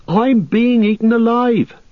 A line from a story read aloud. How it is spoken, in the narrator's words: cried Pippin